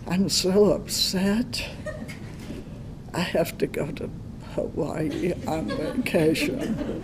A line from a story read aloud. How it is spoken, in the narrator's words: sighed